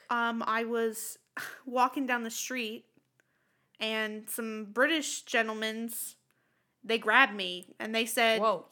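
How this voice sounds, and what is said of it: Put-on American New York accent. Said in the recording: “She's American. ... I'm from New York.”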